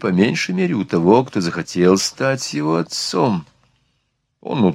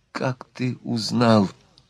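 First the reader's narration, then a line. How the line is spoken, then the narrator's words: Relieved, timid question. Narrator (Russian): Внезапное облегчение, чистые ноты избавления от недуга прозвучали в голосе Марианны, когда она робко спросила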